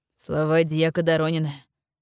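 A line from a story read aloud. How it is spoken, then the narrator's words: Snort. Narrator (Russian): хмыкнул Бакеев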